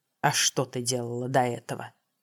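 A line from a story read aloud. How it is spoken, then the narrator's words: Grumbling. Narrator (Russian): в голосе главнокомандующего послышалось ворчание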